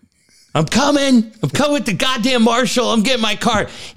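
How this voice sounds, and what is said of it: Screaming imitation of another person. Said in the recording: “screaming at ... doing an impression”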